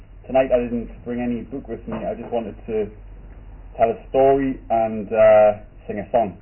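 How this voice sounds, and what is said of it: Northeast English Geordie accent. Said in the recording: “you can probably tell now by the accent. I grew up in Gateshead, which is literally across the water from Newcastle.”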